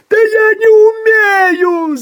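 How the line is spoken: Yelling. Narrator (Russian): завопил рулевой

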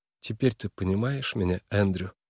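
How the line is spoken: Tender, affectionate. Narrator (Russian): Голос Нойс звучал нежно и ласково

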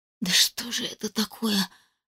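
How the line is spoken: Whispering. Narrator (Russian): шептала я

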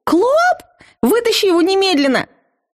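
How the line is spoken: Shrieking. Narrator (Russian): Завизжала я

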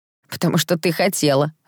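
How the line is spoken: Laughing. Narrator (Russian): рассмеялся Том

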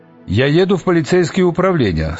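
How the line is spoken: Plain. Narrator (Russian): сказал мокрец

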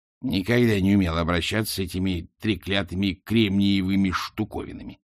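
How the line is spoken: Grumbled. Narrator (Russian): проворчала она

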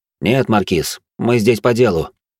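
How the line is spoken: Cold tone. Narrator (Russian): холодным тоном произнес я

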